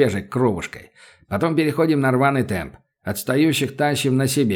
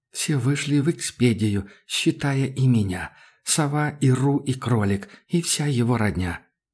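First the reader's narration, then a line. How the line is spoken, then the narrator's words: Muttering. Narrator (Russian): Санькиным бормотание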